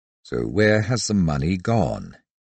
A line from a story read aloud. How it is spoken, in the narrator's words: in a more pensive tone added